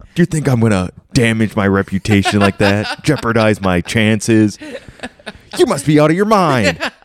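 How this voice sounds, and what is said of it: Good impression of Tom. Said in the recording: “You do a good Tom impression.”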